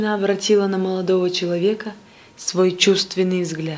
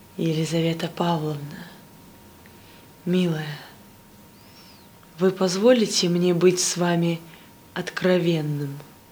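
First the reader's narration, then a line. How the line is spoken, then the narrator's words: Passionate tender whisper. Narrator (Russian): Каверин страстно, нежно прошептал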